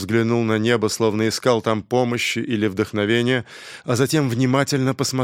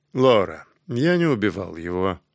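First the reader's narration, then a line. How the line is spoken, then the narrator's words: Calm, after a pause. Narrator (Russian): Помолчав немного, Фаррер спокойно сказал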